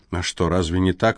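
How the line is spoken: Soft objection. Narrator (Russian): мягко возразил он

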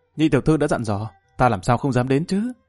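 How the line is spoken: Smiling. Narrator (Vietnamese): Lâm Văn Vinh mỉm cười nói

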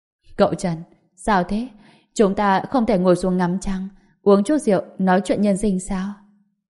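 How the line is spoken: Smiling, teasing. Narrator (Vietnamese): Trần Nhược Lan mỉm cười

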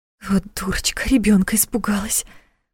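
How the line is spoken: Muttered aloud. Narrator (Russian): Вслух пробормотала она

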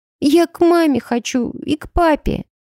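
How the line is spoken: Sobbing. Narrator (Russian): всхлипывал Джонни

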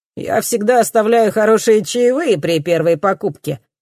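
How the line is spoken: Loud boasting. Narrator (Russian): хвастается парень слишком громко

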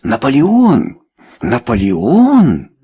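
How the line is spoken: Incredulous exclamation. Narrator (Russian): недоверчиво воскликнули Чарльз и сэр Энтони

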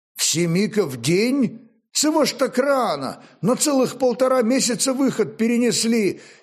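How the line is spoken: Annoyed exclamation, tongue clicking. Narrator (Russian): С нескрываемой досадой воскликнул варяг, начиная цокать, что говорило о его расстройстве

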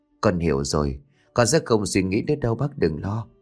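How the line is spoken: Soft murmur. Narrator (Vietnamese): Cô thủ thỉ

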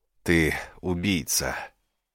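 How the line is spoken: Breathless gasp. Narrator (Russian): выдохнул

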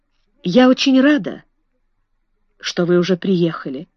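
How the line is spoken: Quiet female voice. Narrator (Russian): тихо сказала миссис Эрроль

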